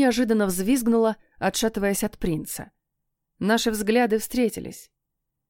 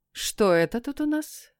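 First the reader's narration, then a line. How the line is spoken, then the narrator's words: Calm question. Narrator (Russian): спросила я спокойно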